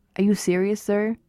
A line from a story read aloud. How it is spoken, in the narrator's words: he said in a small whisper, which had the effect of silencing the pub